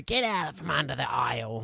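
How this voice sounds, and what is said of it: Imitates another person's voice. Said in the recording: “Incredible impersonation of your mum.”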